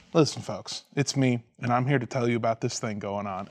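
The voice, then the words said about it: Soothing, calm imitated voice. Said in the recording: “in a very soothing voice”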